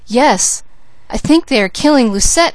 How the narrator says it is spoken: exclaimed the maid

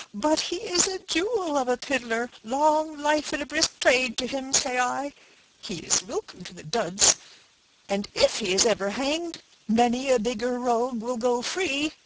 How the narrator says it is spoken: cried the washerwoman

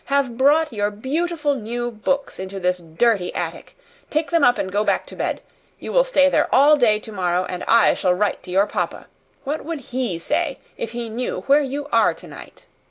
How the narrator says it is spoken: turn on her fiercely

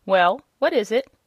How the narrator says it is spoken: asked the rabbit sharply

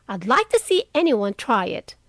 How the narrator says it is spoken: cried Joe fiercely

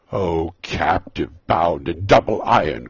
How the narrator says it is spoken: cried the phantom

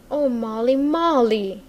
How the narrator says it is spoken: he cried out beseechingly

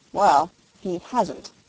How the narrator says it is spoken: said Reggie grimly

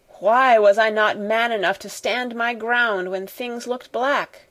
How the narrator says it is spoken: Carrisford groaned in petulant misery

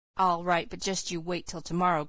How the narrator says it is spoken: growled Dan, subsiding reluctantly into silence

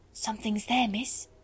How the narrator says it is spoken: she whispered

